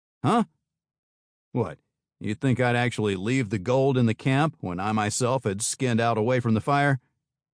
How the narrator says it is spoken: Johnny grunted a caustic laugh

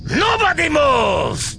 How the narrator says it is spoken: he shouted

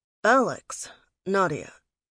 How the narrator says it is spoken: said coolly

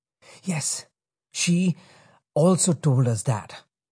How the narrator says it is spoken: said breathlessly

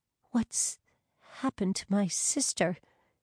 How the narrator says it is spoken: whispered

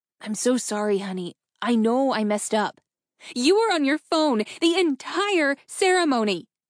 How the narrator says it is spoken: she screeched, in frustration

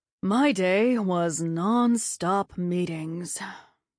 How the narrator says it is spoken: Dad said with a sigh

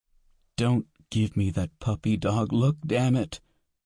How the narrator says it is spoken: Cassie said, sobbing

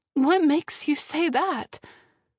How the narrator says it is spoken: blurting out

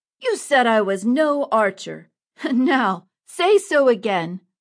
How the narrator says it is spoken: Robin shouted

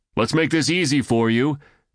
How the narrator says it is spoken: Aiden called out

